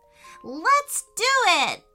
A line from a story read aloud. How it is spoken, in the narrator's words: shouted Peyton